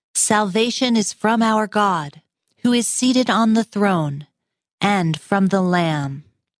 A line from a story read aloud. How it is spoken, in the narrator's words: They cried out in a loud voice